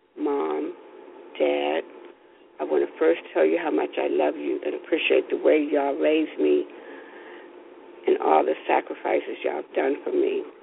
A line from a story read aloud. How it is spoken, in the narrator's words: In a low yet steady voice, she said